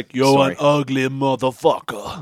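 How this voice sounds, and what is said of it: Arnold Schwarzenegger impression. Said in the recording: “patented beef station Arnie impersonator”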